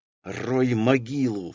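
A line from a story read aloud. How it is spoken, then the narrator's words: Hissed through teeth. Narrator (Russian): сквозь зубы прошипела мне Верка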